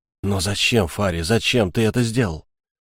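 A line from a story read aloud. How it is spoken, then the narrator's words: Indignant, through gritted teeth. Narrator (Russian): в негодовании, а затем протолкнул сквозь зубы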